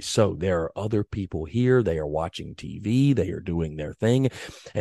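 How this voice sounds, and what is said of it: Hushed, quiet library-level voice. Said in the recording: “I've got to try to tone it down just a little bit ... I'm talking like I'm in the middle of a library ... a little bit more of a soothing”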